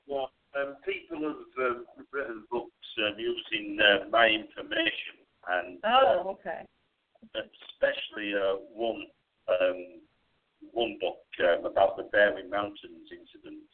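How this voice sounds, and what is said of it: British accent. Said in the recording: “He is located in the UK, as you can tell by his charming accent”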